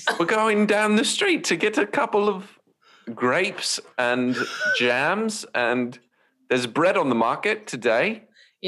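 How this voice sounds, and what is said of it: Put-on British accent, unconvincing. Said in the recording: “I can do a British accent anytime I want ... What's up with the voice? ... you can start doing the British accent whenever you're ready”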